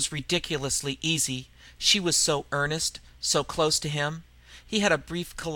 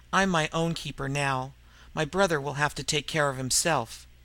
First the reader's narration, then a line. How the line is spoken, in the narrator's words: Gray said evenly